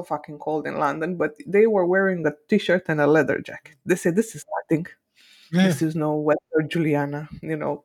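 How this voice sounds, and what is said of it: Imitated Finnish accent, not convincing. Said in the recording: “This is me doing a Finnish accent. It doesn't sound good”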